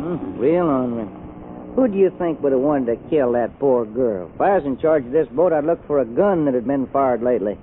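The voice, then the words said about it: Texas accent. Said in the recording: “do you ever get tired of that accent? ... I just talk the way folks talk in Texas ... That's Texas talk.”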